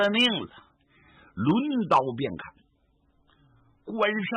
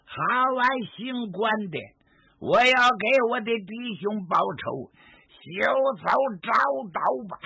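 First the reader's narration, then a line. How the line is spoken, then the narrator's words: Loud roar. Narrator (Chinese): 杨金豹大吼一声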